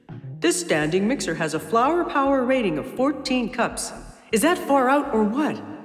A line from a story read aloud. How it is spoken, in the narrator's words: called out